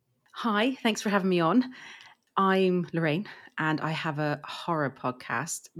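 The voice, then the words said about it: English accent. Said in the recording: “I'm from England, as you can probably tell by my accent.”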